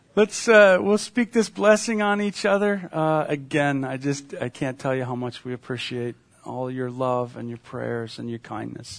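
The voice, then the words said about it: Tired voice trailing off. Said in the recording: “I think my voice was trailing off at the end. I'm just tired”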